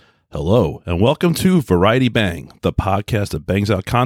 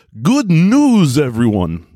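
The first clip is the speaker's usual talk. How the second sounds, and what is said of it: Impression of a cartoon professor. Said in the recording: “my best Professor Farnsworth impersonation”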